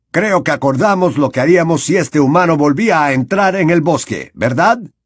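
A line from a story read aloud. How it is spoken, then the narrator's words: Unpleasant tone. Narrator (Spanish): puntualizó Bane con un desagradable tono de voz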